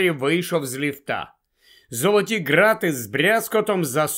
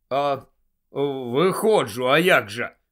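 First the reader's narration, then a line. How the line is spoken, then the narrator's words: Low voice. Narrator (Ukrainian): відповів Гаррі низьким голосом Ранкорна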